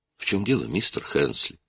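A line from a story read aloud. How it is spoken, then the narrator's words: Gentle question. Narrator (Russian): мягко спросил Аллен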